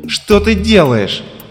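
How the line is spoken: Shouted. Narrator (Russian): крикнул он

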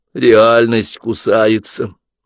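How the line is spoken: Glum statement. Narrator (Russian): уныло констатировала Алиса

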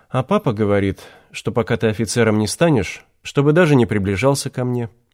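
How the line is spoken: Sighing. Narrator (Russian): вздохнула Лариса

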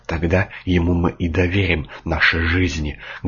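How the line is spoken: Plain. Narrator (Russian): говорит верховодящий

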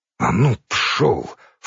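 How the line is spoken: Low-voiced cursing. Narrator (Russian): вполголоса ругнулся на него Семенов

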